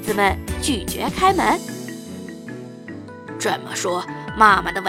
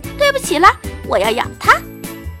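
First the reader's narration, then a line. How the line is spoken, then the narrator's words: Shrieked. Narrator (Chinese): 狼尖叫了一声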